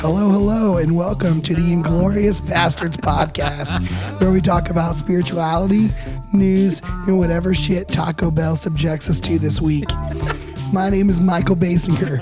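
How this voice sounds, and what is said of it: Hoarse, strained, nearly lost voice. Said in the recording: “My voice is shot, if you can't tell... I'm like literally screaming right now to get this out... my voice would go out”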